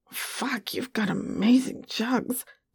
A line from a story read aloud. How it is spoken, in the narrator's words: Popeye growled